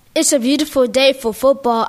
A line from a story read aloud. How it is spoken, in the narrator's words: I yelled